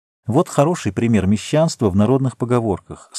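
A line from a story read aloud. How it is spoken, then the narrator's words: Calm. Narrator (Russian): спокойно сказала Сима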